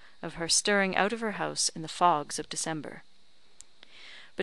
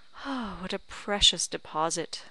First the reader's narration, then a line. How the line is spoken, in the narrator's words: said he with a tender sigh